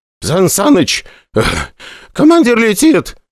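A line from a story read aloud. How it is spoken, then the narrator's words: Exclaimed. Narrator (Russian): воскликнул Сычкин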